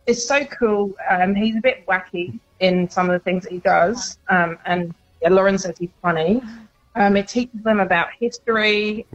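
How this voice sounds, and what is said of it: British accent. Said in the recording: “you do have an accent, so I'm guessing that it is bigger over in the UK.”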